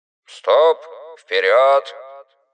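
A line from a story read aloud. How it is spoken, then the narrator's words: Muffled, into speaking tube. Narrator (Russian): Бородатый капитан рулевой глухо говорил в трубку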